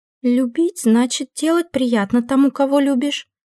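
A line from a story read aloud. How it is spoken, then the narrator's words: Uncertain female voice. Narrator (Russian): неуверенно проговорила рассказчица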